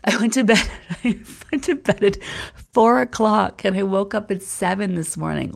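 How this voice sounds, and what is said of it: Sick-sounding voice. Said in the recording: “I haven't been feeling well, as you guys can tell by my voice.”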